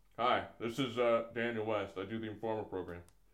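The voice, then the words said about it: Imitates another person's voice. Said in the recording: “do your impression of me ... Not bad.”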